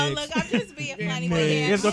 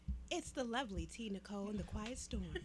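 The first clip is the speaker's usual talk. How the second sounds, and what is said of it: Sultry, seductive radio voice. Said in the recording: “now that was a sexy voice”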